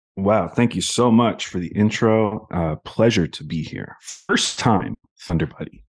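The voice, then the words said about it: Husky, sultry voice from illness. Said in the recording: “my voice if it sounds really sultry. I'm apparently getting sick again, so this is what my voice is going to sound like”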